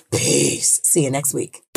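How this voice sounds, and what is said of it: Exaggerated very deep voice. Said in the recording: “in my deepest pan voice,”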